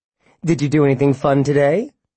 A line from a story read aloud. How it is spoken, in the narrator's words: asked brightly